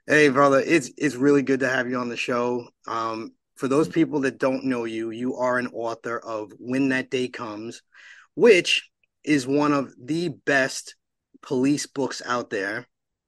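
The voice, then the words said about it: Hoarse voice. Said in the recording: “My voice is a little hoarse because I've been a little under the weather.”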